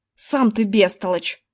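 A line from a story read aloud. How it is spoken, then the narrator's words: Snapped back. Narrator (Russian): огрызнулся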